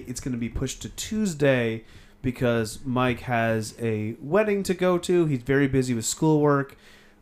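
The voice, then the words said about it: Strained, hoarse voice. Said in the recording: “I'm already losing my voice.”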